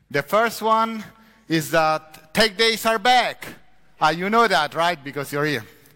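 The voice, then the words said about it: Strong non-native English accent. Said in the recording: “my accent is really horrible”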